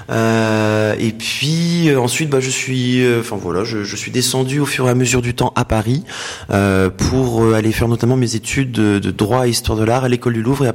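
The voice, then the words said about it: Northern French accent. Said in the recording (French): “je viens du nord de la France, hein, j'ai l'accent pointu”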